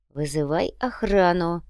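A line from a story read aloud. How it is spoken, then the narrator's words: Hissed. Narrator (Russian): прошипел Макун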